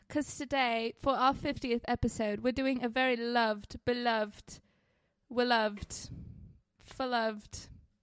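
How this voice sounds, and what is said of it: Put-on accent. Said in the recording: “Why are you doing the accent?”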